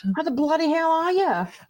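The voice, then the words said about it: Terrible put-on Australian accent. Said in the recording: “we're definitely going to speak in terrible Australian accents all the way through this episode”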